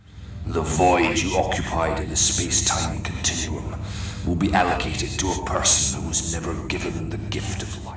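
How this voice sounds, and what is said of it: Deep booming Scottish villain voice. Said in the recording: “the Scottish accent ... it was a Scottish kind of ... villain, deep, booming voices”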